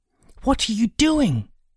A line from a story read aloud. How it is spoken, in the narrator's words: demanded angrily